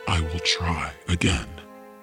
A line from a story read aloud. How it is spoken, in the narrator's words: he whispered to the reflection